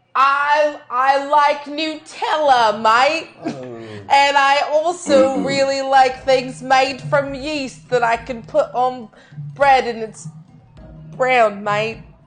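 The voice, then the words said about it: Fake Australian accent. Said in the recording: “put on a fake Australian accent”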